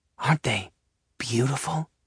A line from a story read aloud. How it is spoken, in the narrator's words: Pearl whispers in awe